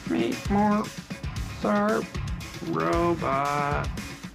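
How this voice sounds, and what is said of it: Bad robot voice impression. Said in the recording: “do the robot voice... That's a terrible robot voice.”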